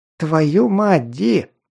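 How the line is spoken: Exclaiming. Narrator (Russian): воскликнул он

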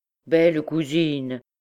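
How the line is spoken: Exclaimed, changing subject. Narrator (French): s'écria-t-il pour changer de conversation

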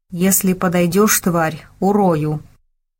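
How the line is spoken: Through gritted teeth. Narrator (Russian): незнакомец … процедил сквозь зубы

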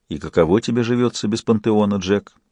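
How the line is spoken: Gentle question, god. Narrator (Russian): мягко спросил Бог

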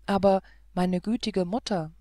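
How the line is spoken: Plain. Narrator (German): antwortete

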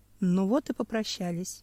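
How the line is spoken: Sighing. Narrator (Russian): вздохнул Семен

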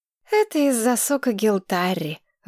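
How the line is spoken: Sighing. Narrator (Russian): вздохнула Маргарет

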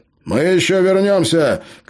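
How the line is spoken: Shout. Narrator (Russian): крикнул Джонатан

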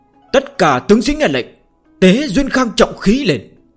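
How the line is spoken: Relieved, suddenly loud. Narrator (Vietnamese): hắn như chút được gánh nặng, đột nhiên cao giọng nói

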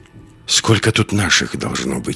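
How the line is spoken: Whispering. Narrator (Russian): шепнул Андерс Лиске

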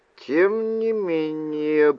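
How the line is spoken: Muttered. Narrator (Russian): пробормотал я

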